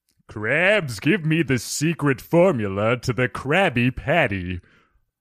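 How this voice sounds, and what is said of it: Impression of Plankton from SpongeBob. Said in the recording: “I'm going to do an impression of a less unsavory character. I don't know if you guys are familiar with the cartoon, the animated feature of SpongeBob. I can do a mean plankton.”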